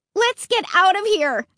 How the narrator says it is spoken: I shouted

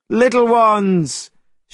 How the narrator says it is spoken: shouted the Monkey King

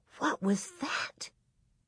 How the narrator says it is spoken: Carrie asked in a thin, scared whisper

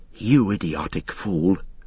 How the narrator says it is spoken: Pippin muttered to himself

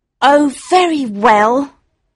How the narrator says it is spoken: said Victor sulkily

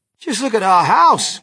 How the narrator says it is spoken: cried poor Mr

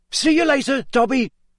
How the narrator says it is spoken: Harry shouted

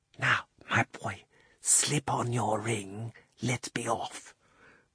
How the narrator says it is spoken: the old man put his mouth so close to Diggory's ear that it tickled, and whispered

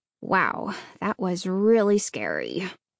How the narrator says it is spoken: Hannah muttered to herself

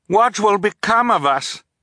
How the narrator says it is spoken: Violet asked, raising her voice to be heard over the rushing water

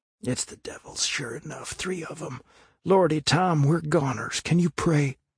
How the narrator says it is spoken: Huckleberry whispered with a shudder

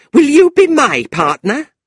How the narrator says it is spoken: Fanny said, looking at Tilda angrily

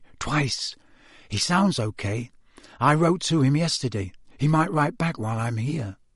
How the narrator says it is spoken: said Harry softly

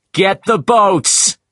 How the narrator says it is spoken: shouted

